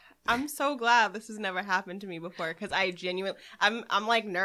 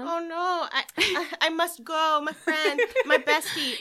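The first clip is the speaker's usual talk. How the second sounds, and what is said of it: Put-on foreign accent. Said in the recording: “You just develop an accent too.”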